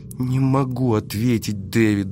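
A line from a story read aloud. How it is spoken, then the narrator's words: Trembling small voice. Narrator (Russian): дрожащим голоском призналась она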